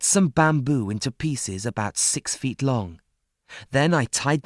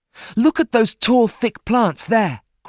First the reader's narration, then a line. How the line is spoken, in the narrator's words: cried Ernest